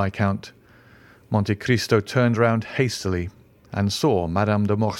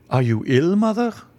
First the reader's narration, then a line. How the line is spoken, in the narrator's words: cried the Viscount